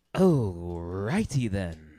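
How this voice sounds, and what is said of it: Ace Ventura character voice. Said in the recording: “It's Ace Ventura.”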